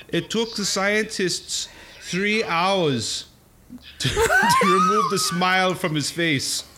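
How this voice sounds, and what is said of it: Put-on German scientist accent. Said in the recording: “That's the typical European scientist accent. ... That's my German.”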